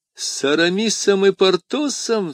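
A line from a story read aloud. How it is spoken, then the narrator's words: Loud exclamation. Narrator (Russian): вскричал Атос и расхохотался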